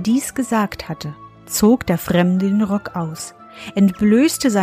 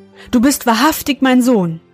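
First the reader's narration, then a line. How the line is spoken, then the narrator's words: Old man calling. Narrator (German): rief der Alte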